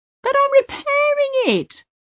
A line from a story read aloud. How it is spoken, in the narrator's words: the youth bursts out, his voice rising into falsetto